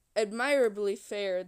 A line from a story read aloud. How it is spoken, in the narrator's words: answered